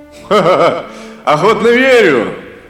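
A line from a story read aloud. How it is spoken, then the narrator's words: Laughing. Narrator (Russian): рассмеялся Кулиэль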